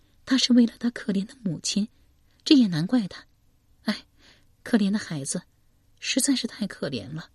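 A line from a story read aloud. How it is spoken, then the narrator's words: Sighing. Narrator (Chinese): 叹息道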